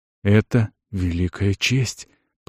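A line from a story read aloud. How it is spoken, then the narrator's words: Awed, enchanted whisper. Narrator (Russian): прошептала Эрига, которая шла, не отводя зачарованных глаз от лунного сияния ветви Игидаруса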